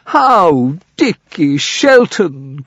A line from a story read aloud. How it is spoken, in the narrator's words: cried the knight